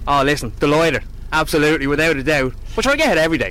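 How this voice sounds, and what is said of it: Local Irish regional accent. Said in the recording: “I'm not sure where that accent's from. Where are you from? ... I'm a local, Gormiston.”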